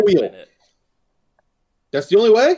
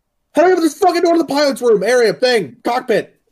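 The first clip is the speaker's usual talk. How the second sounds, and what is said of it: Frantic yelling. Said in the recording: “I'm yelling, frantic.”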